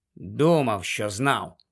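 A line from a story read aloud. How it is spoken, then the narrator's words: Mutter. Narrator (Ukrainian): пробурмотів він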